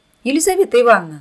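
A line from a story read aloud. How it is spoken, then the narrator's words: Shout. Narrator (Russian): закричал Володька Бессонов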